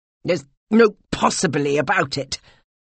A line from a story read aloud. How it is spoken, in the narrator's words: he snapped